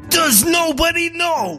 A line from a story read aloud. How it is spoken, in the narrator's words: barked John